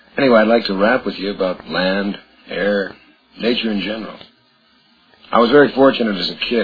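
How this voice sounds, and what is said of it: Hoarse, laryngitis-affected voice. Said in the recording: “my voice sounds a little different, I've had laryngitis for about 4 or 5 weeks”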